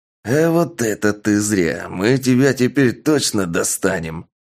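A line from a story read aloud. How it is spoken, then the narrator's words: Angry growl. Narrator (Russian): Зло прорычал переговорщик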